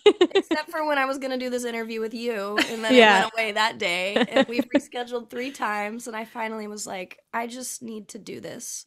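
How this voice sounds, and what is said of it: Scratchy, partly lost voice. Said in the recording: “have like party girl voice... I haven't lost my voice in years... It's scratchy, but you know, I'm here... party girl voice”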